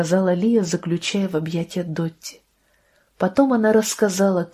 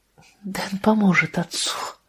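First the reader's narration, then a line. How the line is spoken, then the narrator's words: Tearful brave whisper. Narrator (Russian): прошептала она сквозь слезы с мужественной улыбкой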